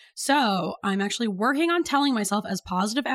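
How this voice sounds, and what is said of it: Usual voice. Nothing is said of it.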